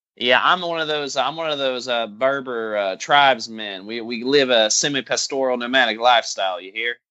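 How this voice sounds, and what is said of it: Put-on country accent. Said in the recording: “Now we're doing country. ... You can tell from my accent.”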